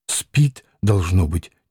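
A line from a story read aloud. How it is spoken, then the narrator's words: Quiet. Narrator (Russian): тихо сказала Лидия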